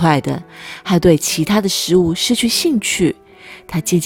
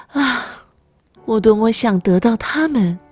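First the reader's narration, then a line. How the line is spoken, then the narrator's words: Sighing, young woman. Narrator (Chinese): 年轻太太叹息说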